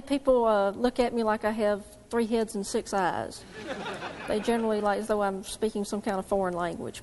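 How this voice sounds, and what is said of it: Southern US accent. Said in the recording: “this young lady is from the South ... your accent”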